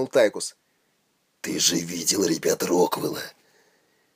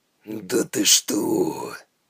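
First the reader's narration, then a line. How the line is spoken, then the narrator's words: Cynical drawl. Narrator (Russian): цинично протянул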